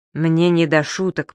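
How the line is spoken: Interrupting. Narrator (Russian): прервал его господин Пепперминт

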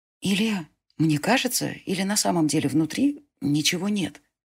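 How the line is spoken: Whisper. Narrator (Russian): прошептала Селена

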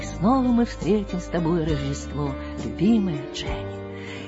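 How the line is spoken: Soft singing. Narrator (Russian): тихонько пропел

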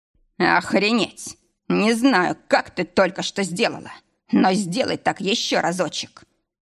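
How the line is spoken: Long drawn moan. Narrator (Russian): простонал протяжно

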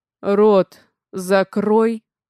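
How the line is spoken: Hoarse rasp. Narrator (Russian): Хриплю я

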